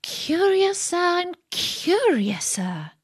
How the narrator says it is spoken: cried Alice

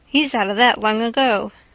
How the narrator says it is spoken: Nosey Flynn said

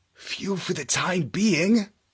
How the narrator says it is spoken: whispered Marlowe

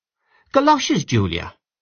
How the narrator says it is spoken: exclaimed her sister

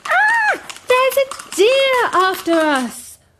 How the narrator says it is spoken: The two girls ran screaming

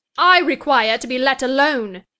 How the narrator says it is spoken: exclaimed Catherine furiously

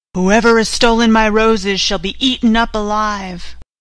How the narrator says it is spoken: a fierce lion and roared out

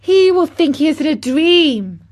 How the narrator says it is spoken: cried Mary

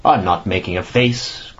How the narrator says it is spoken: growled the annoyed Ossipon bearishly

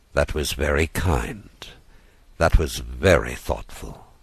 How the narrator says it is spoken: The doctor murmured

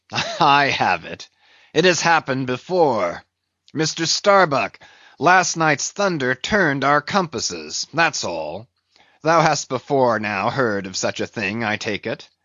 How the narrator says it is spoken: the old man, with a rigid laugh, exclaimed

